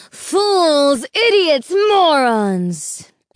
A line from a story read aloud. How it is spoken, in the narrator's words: it thundered